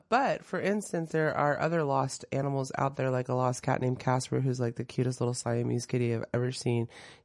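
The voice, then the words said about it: Slightly rough voice. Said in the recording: “I sound a little rough”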